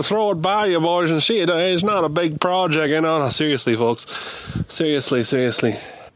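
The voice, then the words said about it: Prank-call comedy character voice. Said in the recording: “That's a heck of a impression to keep running for that long... It's like a prank call character”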